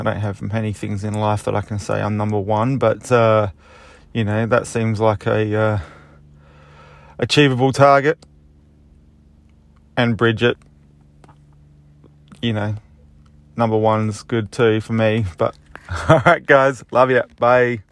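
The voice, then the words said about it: Strong regional accent. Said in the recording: “he's got a phenomenal accent.”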